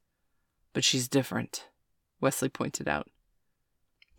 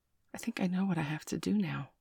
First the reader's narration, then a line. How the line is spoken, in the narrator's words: Bailey said quietly